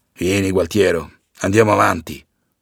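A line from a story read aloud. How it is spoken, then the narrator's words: Father grumbling. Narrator (Italian): brontola il padre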